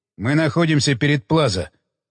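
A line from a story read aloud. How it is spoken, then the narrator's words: Grumbling into radio. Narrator (Russian): буркнул Уилсон в рацию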